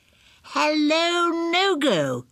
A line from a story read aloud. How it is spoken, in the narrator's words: everybody cried